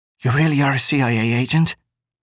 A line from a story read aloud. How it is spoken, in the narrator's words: she asked in a strangled whisper